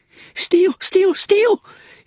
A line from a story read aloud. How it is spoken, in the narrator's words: he replied fiercely